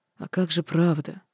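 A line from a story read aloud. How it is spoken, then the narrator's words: Hoarse question. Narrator (Russian): хрипло спросил Свейтис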